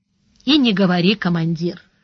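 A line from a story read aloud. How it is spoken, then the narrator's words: Glum natural tone. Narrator (Russian): уныло сказал Бонни прежним, естественным тоном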